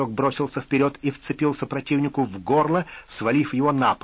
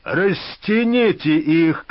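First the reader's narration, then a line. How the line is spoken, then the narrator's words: Shout then sigh. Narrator (Russian): крикнул Микула и вздохнул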